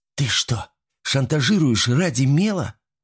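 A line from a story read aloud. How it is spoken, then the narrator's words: Loud hiss. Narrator (Russian): прошипел Ирен так, что все это услышали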